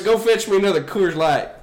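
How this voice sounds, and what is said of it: Put-on Southern US accent. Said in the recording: “Southern Accents Podcast, which is the only accent we can do fluently ... It gets more Southern if you say Queers Light.”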